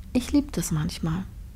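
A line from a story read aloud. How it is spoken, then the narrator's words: Quiet. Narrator (German): sagte Trini leise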